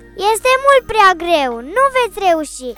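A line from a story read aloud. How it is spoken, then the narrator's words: Spectators shouting. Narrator (Romanian): spectatorii continuau să le strige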